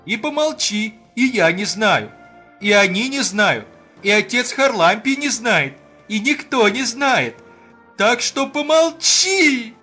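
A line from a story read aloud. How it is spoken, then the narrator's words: Thin, almost sung voice. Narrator (Russian): Он почти пропел тонким голосом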